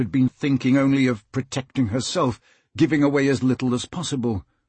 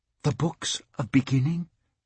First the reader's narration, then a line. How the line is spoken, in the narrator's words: Kate whispered